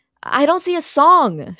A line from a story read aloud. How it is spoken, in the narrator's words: she screams